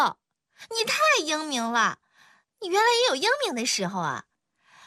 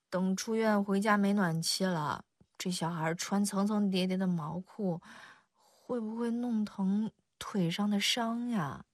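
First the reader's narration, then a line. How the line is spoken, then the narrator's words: Soft. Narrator (Chinese): 邱莹莹轻声说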